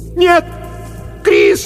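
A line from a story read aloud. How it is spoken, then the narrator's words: Shouting into darkness. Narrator (Russian): закричала она в темноту позади себя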